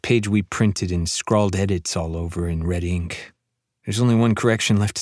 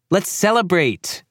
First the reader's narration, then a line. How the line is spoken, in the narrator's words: she yells